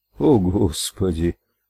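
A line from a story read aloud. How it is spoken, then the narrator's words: Whisper. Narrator (Russian): прошептал Ральф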